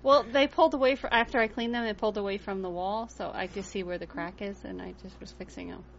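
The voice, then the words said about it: New Jersey accent. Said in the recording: “It must be my Jersey ... accent.”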